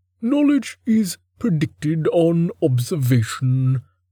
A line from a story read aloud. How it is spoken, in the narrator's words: Reason intoned